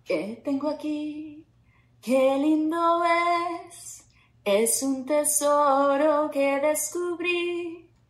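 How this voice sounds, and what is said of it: Singing well, in tune. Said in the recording (Spanish): “Cantas padrísimo, no había visto que era tan entonada ... cantaste increíble”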